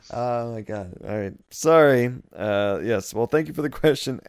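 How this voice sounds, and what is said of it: Usual voice. Nothing is said of it.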